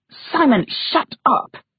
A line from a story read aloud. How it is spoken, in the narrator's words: She hissed